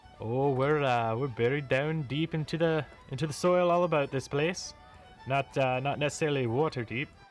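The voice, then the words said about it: Odd character accent. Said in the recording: “What the flip is that accent?”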